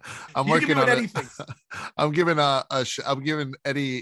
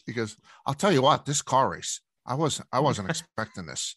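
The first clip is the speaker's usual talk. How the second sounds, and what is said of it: Impression of a Chicago man. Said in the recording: “Eddie's view of Daytona in Eddie's voice... Chicago Eddie, I'm working on an impersonation of him”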